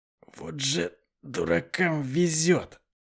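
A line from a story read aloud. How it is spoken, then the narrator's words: Hoarse rasp. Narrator (Russian): прохрипел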